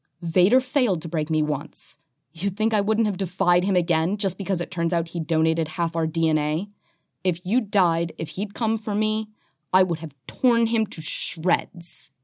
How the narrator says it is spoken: she says fiercely

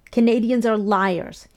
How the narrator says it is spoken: shrieks

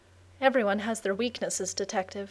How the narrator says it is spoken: she murmured

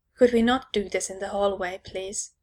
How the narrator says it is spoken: Neil hisses

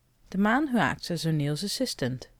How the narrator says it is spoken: Taylor replied calmly

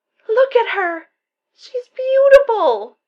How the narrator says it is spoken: Donut cries

